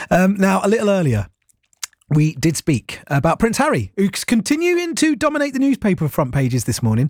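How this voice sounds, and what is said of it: Hoarse, croaky voice. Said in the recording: “oh, appears I've got a frog in my throat.”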